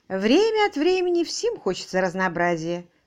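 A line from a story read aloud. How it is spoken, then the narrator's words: Calm remark. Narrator (Russian): спокойно заметила мисс Силвер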